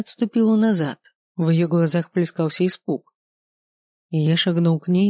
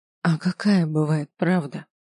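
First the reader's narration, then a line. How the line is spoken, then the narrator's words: Near whisper. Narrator (Russian): почти прошептала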